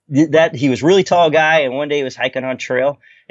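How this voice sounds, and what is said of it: Boston accent. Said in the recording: “Mine started at Boston because people were like, you can tell by your accent”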